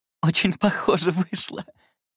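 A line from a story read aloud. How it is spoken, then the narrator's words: Muffled giggle. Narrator (Russian): прикрыв рот ладонью, хихикала Оливия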